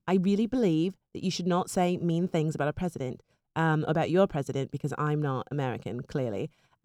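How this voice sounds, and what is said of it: Put-on British accent. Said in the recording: “can I please do a British accent? ... I don't even know how to say that correctly with an accent”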